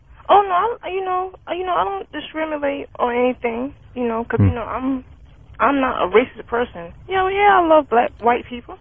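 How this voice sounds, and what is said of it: Speaker with a distinct accent. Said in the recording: “I really like your accent.”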